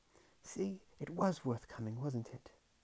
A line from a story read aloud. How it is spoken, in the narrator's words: Under the noise, the manservant made, she whispered